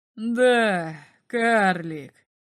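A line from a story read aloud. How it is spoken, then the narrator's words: Drunk giant laughing. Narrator (Russian): засмеялся гигант, выдыхая запах алкоголя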